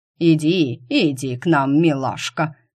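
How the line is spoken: Hoarse tenor voice. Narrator (Russian): поддержал его хриплый тенор

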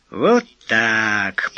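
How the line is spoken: Purring. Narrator (Russian): промурлыкал Эраст Петрович

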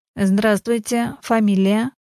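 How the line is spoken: Flat robotic voice. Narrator (Russian): Бесцветным голосом, как робот-автомат, ответила девушка

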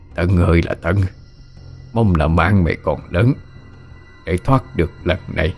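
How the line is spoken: Muttering, medium-pitched voice. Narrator (Vietnamese): Ông trung trung giọng lẩm bẩm nói

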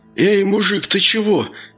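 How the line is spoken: Frightened babbling. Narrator (Russian): испуганно залепетал детина

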